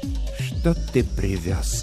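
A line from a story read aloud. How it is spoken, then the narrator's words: Quiet, polite question. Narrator (Russian): спросил он тихим, вежливым голосом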